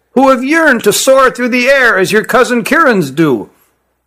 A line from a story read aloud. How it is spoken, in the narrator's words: said Issar to his compatriot in a shrill voice